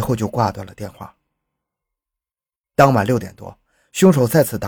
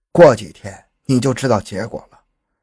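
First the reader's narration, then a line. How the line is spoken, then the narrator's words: Cold reply. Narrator (Chinese): 凶手只是冷冷的回复说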